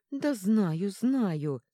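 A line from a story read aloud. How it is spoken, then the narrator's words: Pleading. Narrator (Russian): взмолился Брант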